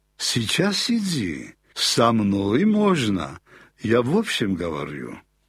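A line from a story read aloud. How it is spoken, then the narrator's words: Gentle. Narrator (Russian): ласково сказал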